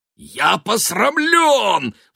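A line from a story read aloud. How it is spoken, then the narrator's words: Roared. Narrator (Russian): взревел Фейерман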